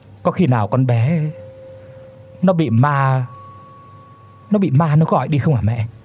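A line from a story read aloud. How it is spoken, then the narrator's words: Trembling voice. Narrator (Vietnamese): nói bằng cái giọng run run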